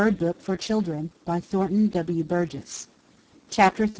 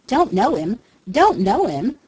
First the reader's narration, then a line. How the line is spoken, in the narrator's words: sputtered Jenny